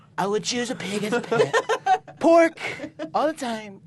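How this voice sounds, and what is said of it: Imitates another person's voice. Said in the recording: “I started doing a Donald Trump impression.”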